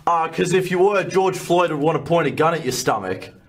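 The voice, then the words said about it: Australian accent. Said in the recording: “if you can't tell from the accent, he's Australian, too.”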